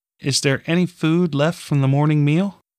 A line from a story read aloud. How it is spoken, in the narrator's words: She asked almost timidly